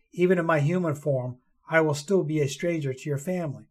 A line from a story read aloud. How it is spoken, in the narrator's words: his voice rasped sadly